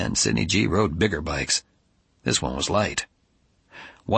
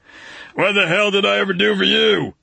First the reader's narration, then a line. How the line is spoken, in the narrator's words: he screamed into the kid's ear